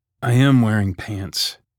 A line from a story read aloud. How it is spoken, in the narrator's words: he groaned